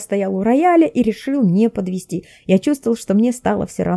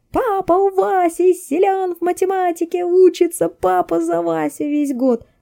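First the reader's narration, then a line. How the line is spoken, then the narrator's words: Sudden yell. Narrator (Russian): совершенно неожиданно завопил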